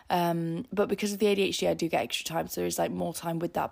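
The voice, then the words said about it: Tired, exhausted-sounding voice. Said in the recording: “you can hear it in my voice. I'm just I'm really exhausted”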